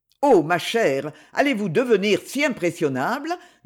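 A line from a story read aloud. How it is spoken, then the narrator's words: Mocking. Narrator (French): dit-il d'un ton railleur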